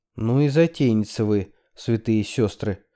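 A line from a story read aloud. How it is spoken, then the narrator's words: Sigh. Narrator (Russian): вздохнула Хелен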